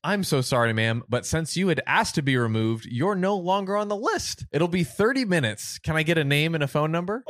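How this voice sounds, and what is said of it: Sweet, pleasant customer service voice. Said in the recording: “in my most pleasant customer service voice ... When you use the kindest voice”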